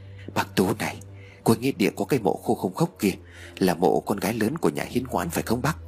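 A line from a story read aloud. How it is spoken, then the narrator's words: Soft, furtive speech. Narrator (Vietnamese): Bà Ngà lén lén nhìn về phía cuối nghĩa địa rồi khẽ nói tiếp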